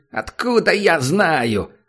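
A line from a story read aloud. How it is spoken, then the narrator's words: Sudden shout. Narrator (Russian): закричал вдруг Кеша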